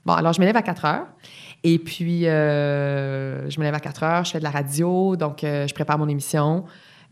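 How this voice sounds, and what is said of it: Québécois joual dialect. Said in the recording (French): “un accent prononcé? ... C'est-à-dire le joual? ... j'essaierai de te parler en joual.”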